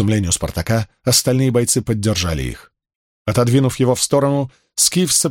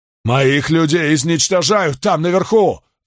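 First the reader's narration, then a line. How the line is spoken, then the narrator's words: Roar. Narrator (Russian): взревел Каст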